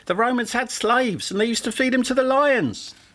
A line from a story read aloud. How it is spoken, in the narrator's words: The same man who had spoken interrupted again, this time shouting more loudly